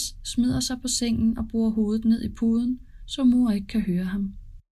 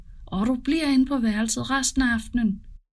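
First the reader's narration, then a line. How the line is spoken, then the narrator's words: Shouting mother. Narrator (Danish): Mor råber efter ham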